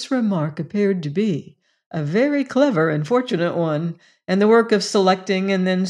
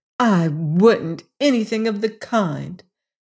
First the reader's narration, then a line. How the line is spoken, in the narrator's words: declared Bess indignantly